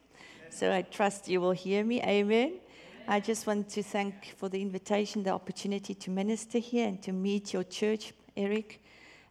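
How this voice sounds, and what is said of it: Speaks with a noticeable accent. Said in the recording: “I prayed this morning for a hearing ear so you can follow my accent.”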